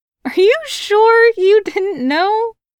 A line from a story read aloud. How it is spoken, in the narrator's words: She laughed